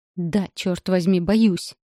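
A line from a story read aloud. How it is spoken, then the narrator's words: Spat angrily. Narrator (Russian): Зло выплевываю я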